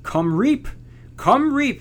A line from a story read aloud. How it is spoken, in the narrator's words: they cried back to her